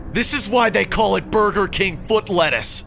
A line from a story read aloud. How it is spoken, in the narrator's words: yelled